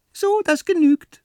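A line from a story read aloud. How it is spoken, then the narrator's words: Squeaky. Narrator (German): piepst er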